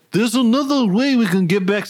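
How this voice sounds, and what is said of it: Imitated accent, slipping. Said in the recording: “I'm losing the fucking accent.”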